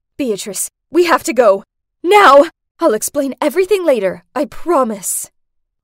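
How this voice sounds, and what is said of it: Panicked voice. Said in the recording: “In a panicked voice”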